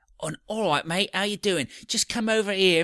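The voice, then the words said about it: Imitated Scouse accent. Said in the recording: “this terrible Scouse accent ... the Scouser accent”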